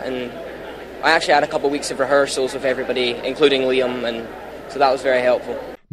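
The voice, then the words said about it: Scottish accent. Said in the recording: “I'm Scottish, of course”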